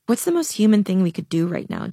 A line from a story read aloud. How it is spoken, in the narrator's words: Jade asked